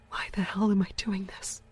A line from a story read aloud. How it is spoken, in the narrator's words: She whispered to herself in a shaky voice